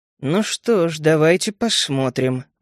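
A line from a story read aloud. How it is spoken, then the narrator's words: Grumbled. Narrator (Russian): буркнул я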